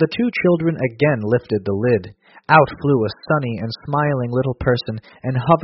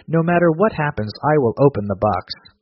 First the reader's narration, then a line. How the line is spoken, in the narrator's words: exclaimed Pandora